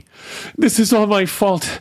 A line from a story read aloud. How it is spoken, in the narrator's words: he panted